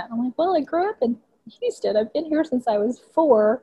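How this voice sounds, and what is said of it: Texas accent. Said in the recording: “you got a Texas accent, sis ... why do you have a Texas accent?”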